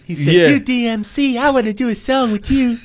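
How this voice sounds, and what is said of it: Imitates another person's voice. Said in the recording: “did a damn good Michael impression”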